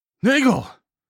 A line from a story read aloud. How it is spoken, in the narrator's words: I called out